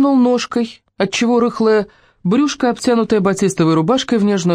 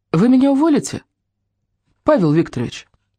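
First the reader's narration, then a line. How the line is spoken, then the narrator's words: Calm, indifferent question. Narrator (Russian): Неожиданно спокойно спросила Аллочка, ощущая, как серое тупое безразличие разливается внутри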